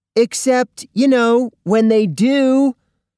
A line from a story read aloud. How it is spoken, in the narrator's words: shouted Kyle's best friend, Akemi Hughes